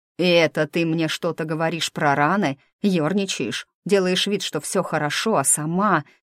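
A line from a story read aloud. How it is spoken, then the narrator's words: Growl. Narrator (Russian): Напарник буквально прорычал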